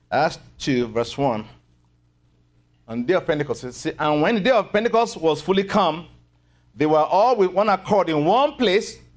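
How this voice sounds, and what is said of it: Speaks with a noticeable accent. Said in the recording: “Can you still understand my accent tonight?”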